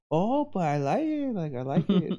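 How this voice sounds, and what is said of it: Imitated mother's accent. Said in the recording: “you just gave my mom a Mino accent”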